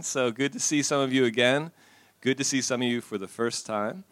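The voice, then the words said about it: American accent. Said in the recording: “accent, ... I remember that American accent,”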